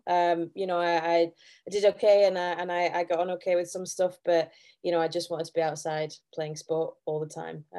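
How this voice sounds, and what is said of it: Yorkshire English accent. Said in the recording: “as you can probably tell by the accent, I'm not a native Scot. So I hail from the beautiful county of Yorkshire.”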